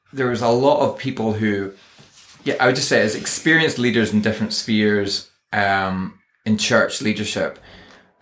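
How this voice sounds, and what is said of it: Northern Irish accent. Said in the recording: “They loved my Scottish accent ... I am Northern Irish ... I think that's known as Ulster Scots.”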